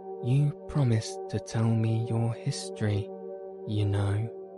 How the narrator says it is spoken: said Alice

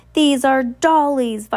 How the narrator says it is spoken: Violet cried

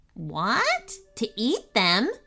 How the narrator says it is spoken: yelped Candy Paws

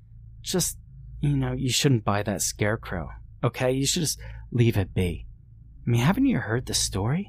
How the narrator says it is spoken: said in a hushed voice

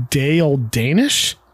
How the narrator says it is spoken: Dorothy slowly says

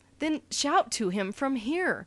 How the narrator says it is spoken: pressed the sergeant nervously

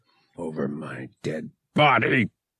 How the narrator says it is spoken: he snarled

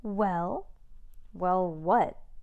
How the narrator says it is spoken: stammered Max Ernest

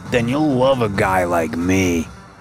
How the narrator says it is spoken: slurred

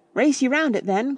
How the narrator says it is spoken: cried Freddy

